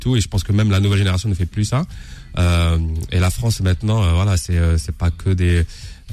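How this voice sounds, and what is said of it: Soft mixed Kabyle-Québécois accent. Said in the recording (French): “un petit accent kabyle de Montréal... l'accent que j'ai... Il est doux et parce que c'est toutes ces couches. C'était le québécois plus New York plus... Londres”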